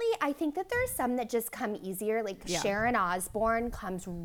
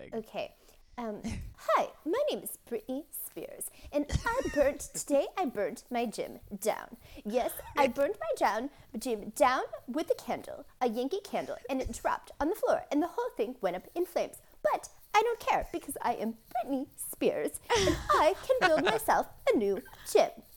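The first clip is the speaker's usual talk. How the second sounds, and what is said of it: Imitates another person's voice. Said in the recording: “do you study the people that you impersonate? ... Britney comes really easy to me.”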